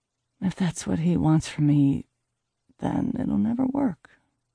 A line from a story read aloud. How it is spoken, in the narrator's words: I said softly